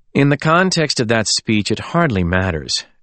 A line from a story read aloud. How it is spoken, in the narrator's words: Alexander said wearily